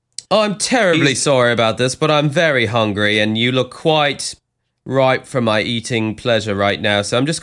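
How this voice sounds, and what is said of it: Put-on British accent. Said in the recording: “I don't know how or why I have this British accent”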